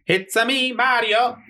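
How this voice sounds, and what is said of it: Mario character voice impression. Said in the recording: “your best Mario impression ... That was good. That was good right there. ... there was a mix of something in there ... There was a little bit of ... Borat. I had a little bit of Borat in”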